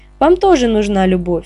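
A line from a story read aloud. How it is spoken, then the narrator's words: Cat's snort. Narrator (Russian): фыркнул кот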